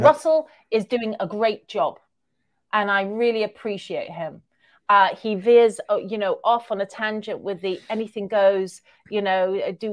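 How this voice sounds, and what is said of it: Accent similar to Russell Brand's. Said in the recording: “have you heard of this guy who you have a kind of a similar accent to? His name is Russell Brand.”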